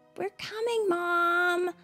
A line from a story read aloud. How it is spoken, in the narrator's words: shouted Larie